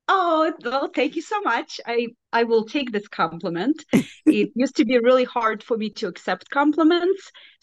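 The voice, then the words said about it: Belarusian accent. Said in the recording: “you have this fantastic accent. So can you please tell us where you're from? ... I am from Belarus. So it's a small country in Eastern Europe.”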